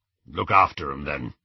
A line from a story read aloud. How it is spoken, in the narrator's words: said Aberforth gruffly